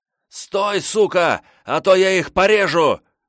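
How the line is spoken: Yelled. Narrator (Russian): заорал

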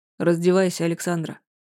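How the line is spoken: Calm. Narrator (Russian): сказал спокойно

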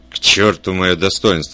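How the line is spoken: Growling. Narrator (Russian): прорычал Кремер

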